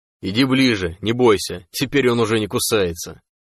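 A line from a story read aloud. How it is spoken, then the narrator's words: Chuckling. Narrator (Russian): хохотнул сталкер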